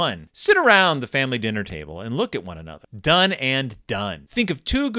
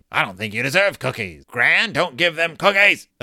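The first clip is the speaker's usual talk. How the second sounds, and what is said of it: Impression of Gramps. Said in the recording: “That's my impression of Gram.”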